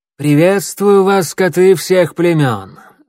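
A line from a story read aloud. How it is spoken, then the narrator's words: Ringing clear voice. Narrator (Russian): звонким голосом начала она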